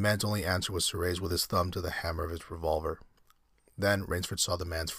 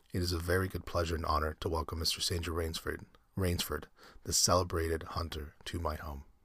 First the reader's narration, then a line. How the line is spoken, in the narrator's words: In a cultivated voice marked by a slight accent that gave it added precision and deliberateness, he said